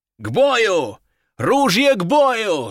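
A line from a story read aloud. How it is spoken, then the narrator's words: Yelling. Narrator (Russian): заорал Нефедов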